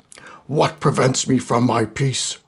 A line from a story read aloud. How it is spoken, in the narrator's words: roared Garthur